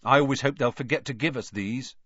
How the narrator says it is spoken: said Fred Weasley, sadly

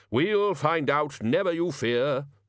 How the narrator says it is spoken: said Ridcully happily

